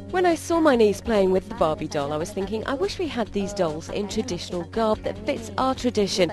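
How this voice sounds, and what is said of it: British accent. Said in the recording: “sounds classy with a British accent”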